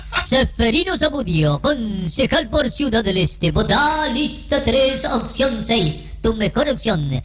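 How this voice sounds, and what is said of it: Radio announcer voice. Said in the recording (Spanish): “Ahora voy a ser mi locutor. ... voz de locutor”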